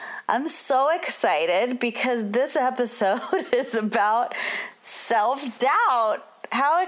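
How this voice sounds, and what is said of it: Usual voice. Nothing is said of it.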